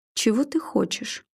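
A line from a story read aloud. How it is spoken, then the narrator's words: Calm question after pause. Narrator (Russian): спокойно спросила она после непродолжительной паузы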